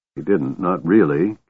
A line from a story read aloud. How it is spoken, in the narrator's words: Caramon mumbled